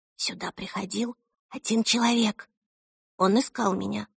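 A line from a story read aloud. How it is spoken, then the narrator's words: Whispered into ear. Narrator (Russian): прошептала Эльса ему на ухо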